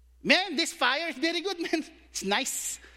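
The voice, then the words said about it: Put-on Filipino accent. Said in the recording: “I'm gonna use my Filipino diction”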